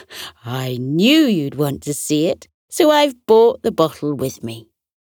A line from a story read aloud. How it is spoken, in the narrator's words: Auntie Shirley chuckled and said